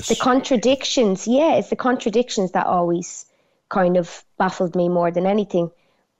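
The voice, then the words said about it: Broad Dublin accent. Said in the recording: “you've got a broad Dublin accent”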